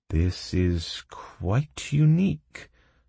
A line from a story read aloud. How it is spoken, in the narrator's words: slowly began Cedric, staring hungrily